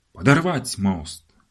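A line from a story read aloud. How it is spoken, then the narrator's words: Barked shout. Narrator (Russian): гаркнул полковник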